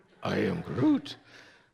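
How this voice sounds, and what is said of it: Imitates a movie character's voice. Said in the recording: “my impersonation of Groot”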